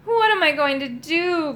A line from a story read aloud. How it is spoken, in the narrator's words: groaned Moongobble